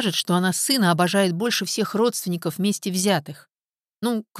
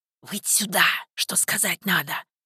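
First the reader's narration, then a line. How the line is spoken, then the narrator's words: Loud hissing whisper. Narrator (Russian): прошипел Сенька громким шепотом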